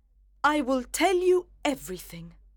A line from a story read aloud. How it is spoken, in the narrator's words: cried his wife with a proud face